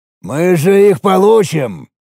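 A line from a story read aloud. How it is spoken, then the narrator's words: Deep bass, giant. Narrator (Russian): пробасил великан-циклоп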